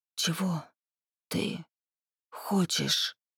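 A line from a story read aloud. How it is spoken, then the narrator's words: Distant menacing hiss. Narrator (Russian): Далеко-далеко на самой грани слуха послышалось пугающее злобное шипение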